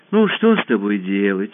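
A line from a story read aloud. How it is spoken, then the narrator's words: Sighing. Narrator (Russian): вздохнула Алиса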